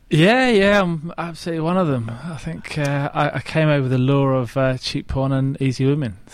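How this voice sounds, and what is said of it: South London English accent. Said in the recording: “your accent is not Australian ... South London, mate.”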